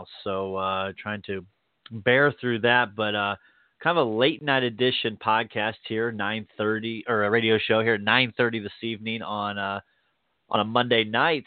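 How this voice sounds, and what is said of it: Slightly congested, odd-sounding voice. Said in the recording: “If I sound a little weird, it's a little bit of a head cold slash allergies right now.”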